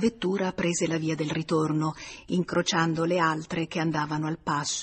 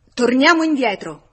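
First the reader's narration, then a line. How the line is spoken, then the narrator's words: Shouted. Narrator (Italian): Georges gridò al vetturino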